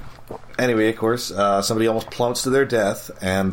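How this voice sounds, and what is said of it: Usual voice. Nothing is said of it.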